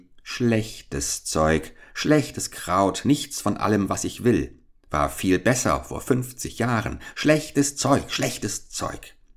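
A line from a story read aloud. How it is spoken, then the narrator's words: Muttered. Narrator (German): murmelte sie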